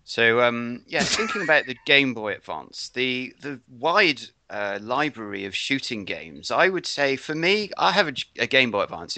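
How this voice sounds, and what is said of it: Put-on American accent. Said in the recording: “I'm going into my American accent now”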